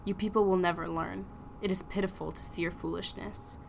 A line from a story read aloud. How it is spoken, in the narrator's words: He said coldly